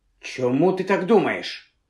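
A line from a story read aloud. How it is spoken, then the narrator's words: Sharp question. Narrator (Ukrainian): різко запитав він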